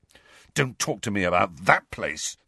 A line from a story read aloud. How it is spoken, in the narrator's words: said fiercely